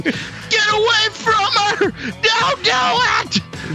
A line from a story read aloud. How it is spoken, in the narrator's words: Harambe was looking down from heaven screaming